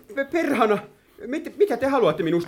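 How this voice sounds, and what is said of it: Shouting. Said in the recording (Finnish): “Älä huuda.”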